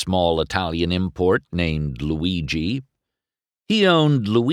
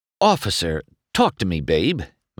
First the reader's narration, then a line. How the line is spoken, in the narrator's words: McQueen said to the sheriff in a smooth voice